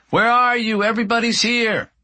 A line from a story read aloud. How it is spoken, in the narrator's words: she yells from the kitchen